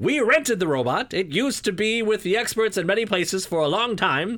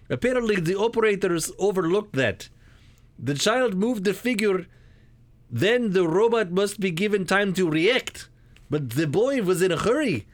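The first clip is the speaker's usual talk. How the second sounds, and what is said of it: Put-on Russian accent. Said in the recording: “should I be doing this in a Russian accent ... I think we can do Russian.”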